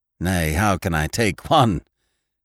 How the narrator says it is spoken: he said, laughing uneasily

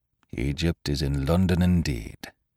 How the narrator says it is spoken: muttered Dr

